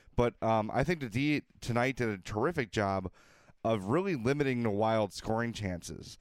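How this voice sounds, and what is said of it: Voice hoarse from a cold. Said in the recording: “apologize for my voice here. I've got a little bit of a cold ... I'm sure you can hear it. So if I'm a little unclear”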